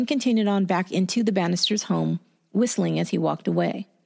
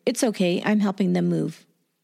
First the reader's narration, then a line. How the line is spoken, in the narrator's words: The man calmly answered